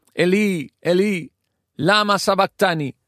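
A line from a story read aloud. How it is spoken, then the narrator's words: Loud cry. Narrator (Spanish): Jesús grita en voz alta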